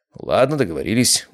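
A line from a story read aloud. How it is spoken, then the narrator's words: Muttered. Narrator (Russian): буркнул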